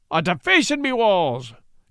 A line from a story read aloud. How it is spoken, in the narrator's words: cried Pat